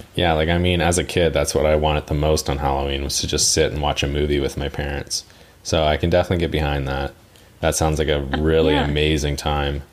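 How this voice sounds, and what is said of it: Heavily sarcastic delivery. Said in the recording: “being sarcastic? ... Extremely”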